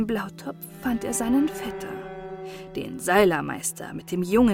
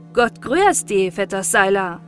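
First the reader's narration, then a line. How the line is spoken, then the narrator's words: Calling out. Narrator (German): rief der Kurt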